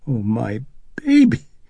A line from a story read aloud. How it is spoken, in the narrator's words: Chris cried